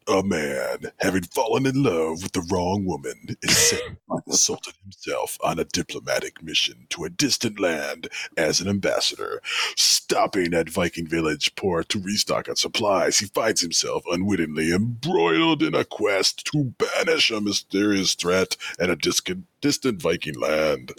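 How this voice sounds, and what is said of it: Dramatic movie trailer announcer voice. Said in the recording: “my movie announcer voice”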